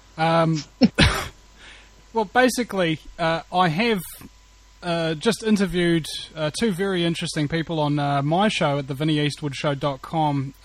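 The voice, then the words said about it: Distinct accent. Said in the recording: “it's the accent. Every single time I hear you talk”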